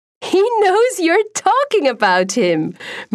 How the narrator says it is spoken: Maria laughs

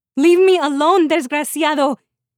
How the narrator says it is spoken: she yells at him

